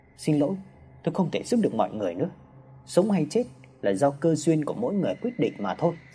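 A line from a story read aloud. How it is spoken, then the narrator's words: Soft speech. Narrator (Vietnamese): Vị sư khẽ nói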